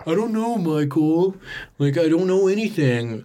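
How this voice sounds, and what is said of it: Impression of a film actor's voice. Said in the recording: “That's a great John Chazelle impression.”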